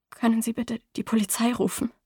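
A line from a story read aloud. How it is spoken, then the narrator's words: Quiet reply. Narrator (German): erwiderte leise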